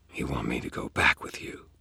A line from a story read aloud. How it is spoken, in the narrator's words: I whispered